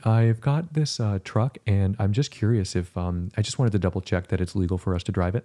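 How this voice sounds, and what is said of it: Soft-spoken, sweet imitated voice. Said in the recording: “David's very like soft-spoken ... he's like very sweet ... good David impression?”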